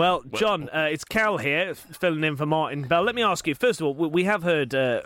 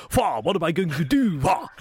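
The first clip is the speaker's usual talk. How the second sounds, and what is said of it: Good impression of Boris Johnson. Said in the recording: “That's quite a good impression. ... He's an impersonator.”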